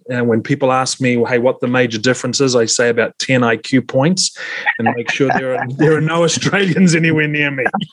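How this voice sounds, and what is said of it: New Zealand accent. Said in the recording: “The accent is from New Zealand. Often when I start saying the new part, people guess New Jersey or Boston, but it's from New Zealand. Very similar to the Australian accent.”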